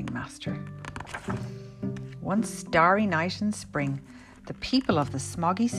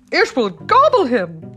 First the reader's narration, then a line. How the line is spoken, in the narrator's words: shrieked another